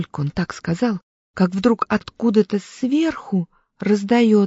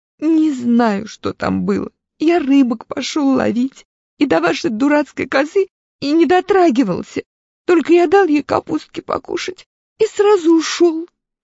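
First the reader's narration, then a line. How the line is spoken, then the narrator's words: Tearful child. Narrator (Russian): Минька сквозь слезы говорит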